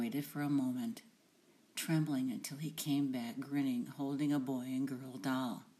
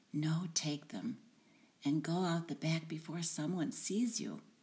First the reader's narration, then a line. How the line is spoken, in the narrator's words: whispered